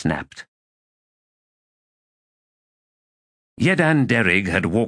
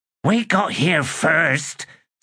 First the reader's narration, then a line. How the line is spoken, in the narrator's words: Squish growled